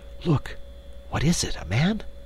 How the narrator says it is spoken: she whispered

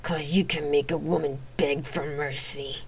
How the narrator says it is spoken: she hissed

